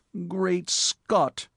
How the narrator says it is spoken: moaned his lordship, in a fervor of self-pity

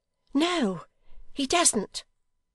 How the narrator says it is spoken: cried Dolly

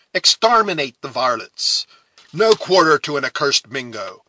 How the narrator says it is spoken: a voice near him shouting

